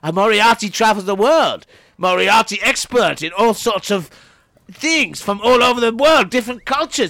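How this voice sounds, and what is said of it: Put-on foreign character accent. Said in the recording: “What do you say about my accent? ... His accent's implacable.”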